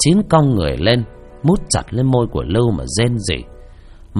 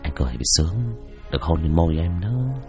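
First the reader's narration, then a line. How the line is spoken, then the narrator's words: Whispering. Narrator (Vietnamese): mà thì thầm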